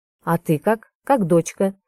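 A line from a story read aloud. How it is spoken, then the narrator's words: Interrupting, steely tone. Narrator (Russian): перебивает он стальным тоном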